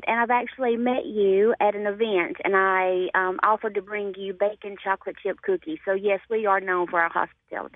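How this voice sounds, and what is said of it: Southern Alabama accent. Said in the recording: “I do detect a Southern accent. ... A bit of a Southern accent ... a beautiful Southern Alabama accent”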